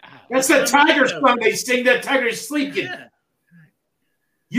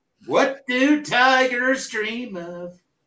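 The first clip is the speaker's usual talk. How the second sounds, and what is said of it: Poor imitation of a movie song. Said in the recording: “that was a horrible impersonation”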